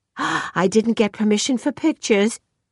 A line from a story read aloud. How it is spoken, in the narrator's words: she gasped